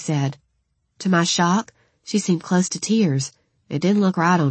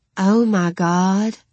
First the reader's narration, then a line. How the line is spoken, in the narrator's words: I breathed